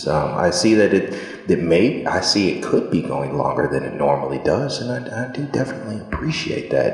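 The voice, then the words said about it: Speaking very softly. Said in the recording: “I'm talking so soft ... I appreciate the soft speech. It makes us feel close.”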